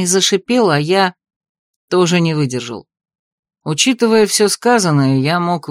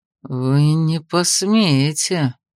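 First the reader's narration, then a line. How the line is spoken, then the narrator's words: Through gritted teeth. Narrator (Russian): процедил сквозь зубы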